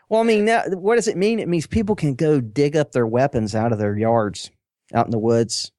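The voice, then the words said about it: New England / New York accent. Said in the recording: “We could tell from the accent... You know, New England. New York accent... Boston”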